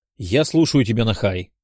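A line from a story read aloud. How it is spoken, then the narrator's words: Displeased reply. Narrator (Russian): недовольным тоном ответил я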